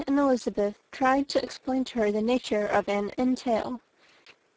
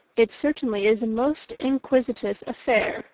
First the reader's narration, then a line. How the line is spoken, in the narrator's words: said Mr